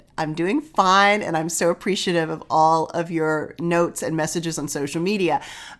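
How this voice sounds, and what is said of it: Weakened, not fully recovered voice. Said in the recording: “apologize for my voice. ... As you can probably hear, I am still recovering from COVID. ... I am having a bit of trouble getting my voice to fully return”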